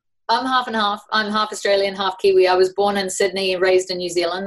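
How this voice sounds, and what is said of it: New Zealand accent. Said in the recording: “new zealand accent”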